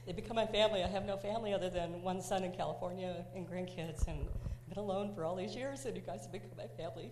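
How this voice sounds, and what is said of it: Emotional, tearful voice. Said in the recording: “I get emotional too... I'm so sorry to get emotional.”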